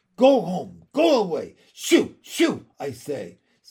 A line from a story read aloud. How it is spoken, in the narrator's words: said Miss Lark, waving her arms angrily at the dog